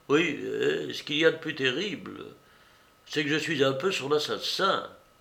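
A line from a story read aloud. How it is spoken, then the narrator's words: Murmured. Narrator (French): il murmura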